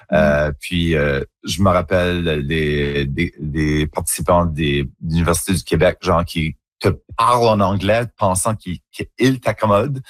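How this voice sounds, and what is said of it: Acadian French accent, rounded. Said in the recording (French): “on est un peu self-conscious de notre accent ... c'est juste mon accent en acadie. C'est comme ça qu'on parle ... un accent un petit peu plus coloré, un petit peu plus arrondi”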